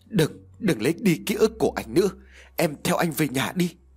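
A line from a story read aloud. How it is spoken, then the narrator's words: Stammering. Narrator (Vietnamese): Cậu liền lắp bắp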